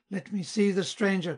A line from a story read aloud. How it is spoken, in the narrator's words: cried he